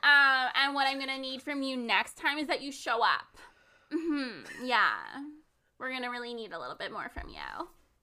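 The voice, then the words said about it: Mock manager giving a review. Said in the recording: “I'm like your manager giving you a review ... I can't do that voice ... a manager ... who sounded exactly like that ... You know how I'm talking like that as a joke?”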